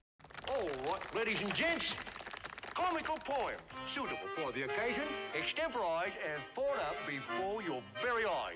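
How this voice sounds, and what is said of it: Terrible put-on English accent. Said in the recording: “Dick Van Dyke in this, even though his accent is terrible.”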